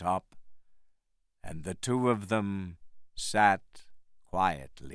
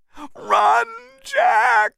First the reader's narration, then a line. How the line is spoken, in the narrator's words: Anne screamed